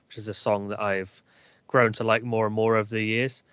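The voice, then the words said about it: Northwest Wiltshire English accent. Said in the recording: “my Northwest Wiltshire accent”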